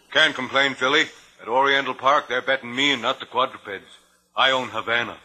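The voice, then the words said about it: Deep booming baritone male voice. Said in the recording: “the tiny man with a king-sized baritone”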